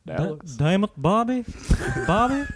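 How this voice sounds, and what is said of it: Cartoon character voice impression. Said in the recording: “you have to do your Hank Hill impression... that shit is actually amazing. He has the craziest... Hank Hill impression... let's hear that King of the Hill one... That's actually fucking good. That's so fucking good.”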